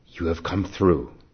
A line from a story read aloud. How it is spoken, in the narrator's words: said